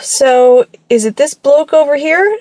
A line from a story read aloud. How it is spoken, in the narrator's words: She laughed